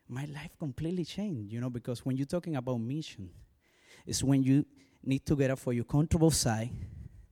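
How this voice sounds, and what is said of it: Strong foreign accent. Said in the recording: “my accent, it's a strong accent.”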